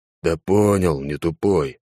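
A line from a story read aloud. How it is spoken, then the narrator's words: Slightly offended. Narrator (Russian): немного обиженно сказал клоун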